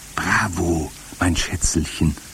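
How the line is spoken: Whispered reply. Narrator (German): flüsterte zurück

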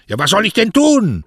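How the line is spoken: Very loud shouting. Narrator (German): schrie so laut, dass man ihn in der ganzen Bucht hören konnte

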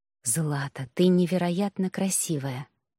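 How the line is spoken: Rapturous whisper. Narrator (Russian): восторженно прошептал

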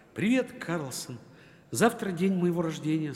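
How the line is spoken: Plain, child. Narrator (Russian): сказал малыш

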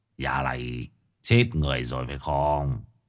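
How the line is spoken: Old man muttering. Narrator (Vietnamese): Lão Tân lẩm bẩm

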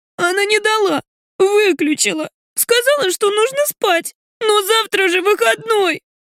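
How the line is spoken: Hurt sobbing child. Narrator (Russian): обиженно всхлипывает дочь

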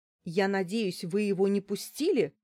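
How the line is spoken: Frightened exclamation. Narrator (Russian): воскликнула я, чувствуя, как по спине побежали мурашки

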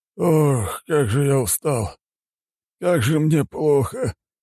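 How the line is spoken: Weary sigh. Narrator (Russian): вздохнул начальник

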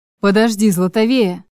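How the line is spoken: Muttered through teeth. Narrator (Russian): процедил за моей спиной Чарослав

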